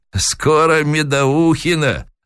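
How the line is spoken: Sly, old man. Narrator (Russian): лукаво ответил старик

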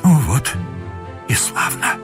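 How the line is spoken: Whispered, tearful. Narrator (Russian): прошептал Муравьев

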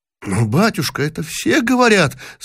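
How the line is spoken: Boy's trembling voice. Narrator (Russian): сказал трепетным голосом мальчик

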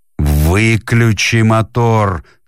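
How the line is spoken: Shout. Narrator (Russian): крикнул Бен

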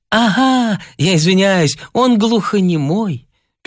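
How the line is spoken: Sad, to no one. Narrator (Russian): печально сказала Ниночка Подлесная в пространство

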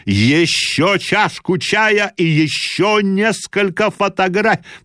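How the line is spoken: Shouted. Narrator (Russian): кричал

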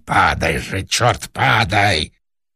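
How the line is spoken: Fierce whispered shout. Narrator (Russian): режиссер страшным шепотом крикнул

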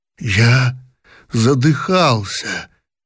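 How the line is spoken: Hoarse repetition. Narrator (Russian): сипло повторил Павел

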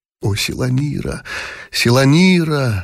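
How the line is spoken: Young man's aching whisper. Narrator (Russian): шептал юноша прислушиваясь к сладкой боли от которой ломило у него в груди

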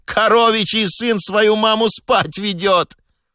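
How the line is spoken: Boy's wild delighted shriek. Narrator (Russian): один мальчишка пришел в такой восторг, что дико взвизгнул и провозгласил на всю улицу

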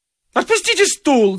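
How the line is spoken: Sudden shriek. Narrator (Russian): завизжал вдруг Авессалом Владимирович

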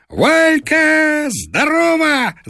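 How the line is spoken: Shouting. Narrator (Russian): закричал он

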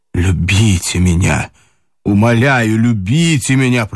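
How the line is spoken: Desperate pleading. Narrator (Russian): проговорил он отчаянным голосом, словно в ней было сейчас все его спасение

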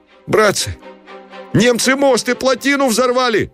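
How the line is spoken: Shocked fearful shout. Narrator (Russian): крикнул кто-то с выражением догадки, изумления и страха

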